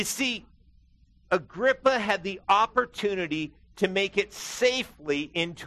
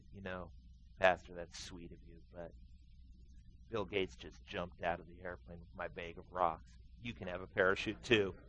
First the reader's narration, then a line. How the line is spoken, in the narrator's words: The geologist calmly looked at him and said